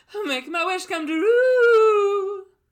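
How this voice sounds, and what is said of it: Imitates another person's singing voice. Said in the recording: “let me see if I can actually do like a good impression of that ... The first true's got to be a little more flat ... Yeah, that was better.”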